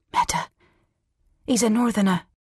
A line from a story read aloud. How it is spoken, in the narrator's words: said Severin hoarsely